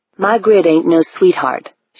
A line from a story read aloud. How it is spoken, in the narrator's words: she said